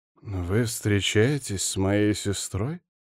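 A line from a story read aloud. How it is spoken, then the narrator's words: Hoarse, finally blurted. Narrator (Russian): сипло выдал он наконец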